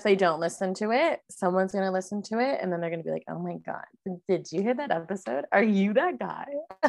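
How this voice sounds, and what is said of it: Nasal Canadian accent. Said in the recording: “it's the Canadian ... They hear the accent ... I sound so nasally. I sound so annoying.”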